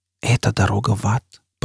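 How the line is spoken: Whispered. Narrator (Russian): прошептала Джизбелла

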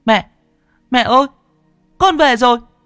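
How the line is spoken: Shouting. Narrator (Vietnamese): Nó hét

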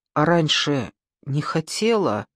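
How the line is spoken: Muffled question. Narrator (Russian): глухо спросила Сима

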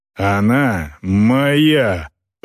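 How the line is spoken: Creature's growl. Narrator (Russian): прорычал дрекер

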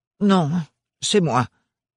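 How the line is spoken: Stammering aunt. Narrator (French): bredouilla la tante Roseline

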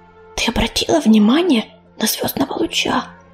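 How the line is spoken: Whisper. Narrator (Russian): прошептала Медуница

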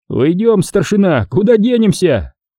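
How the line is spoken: Straining loud shout. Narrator (Russian): крикнул в сторону немцев, так что надулись жилы на шее

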